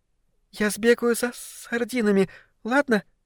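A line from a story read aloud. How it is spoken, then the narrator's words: Babbling. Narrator (Russian): Пролепетала питательная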